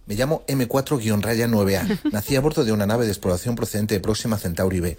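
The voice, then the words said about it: Alien character with Galician accent. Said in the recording (Spanish): “Aprendimos castellano con acento gallego porque es el mejor ... M4 Riquiño.”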